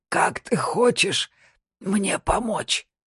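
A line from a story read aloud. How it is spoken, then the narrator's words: Rasping. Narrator (Russian): прохрипел он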